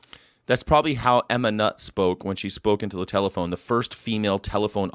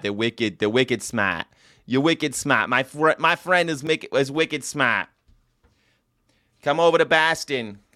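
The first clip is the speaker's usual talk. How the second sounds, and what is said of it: Put-on Boston accent. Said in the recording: “If you like funny accents ... You could talk like you're from Boston.”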